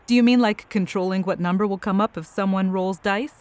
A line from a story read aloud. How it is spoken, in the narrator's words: She laughed and asked